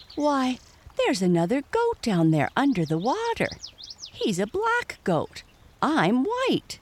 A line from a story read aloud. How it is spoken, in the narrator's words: he exclaimed to himself